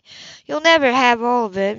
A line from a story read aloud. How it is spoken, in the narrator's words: she laughed bitterly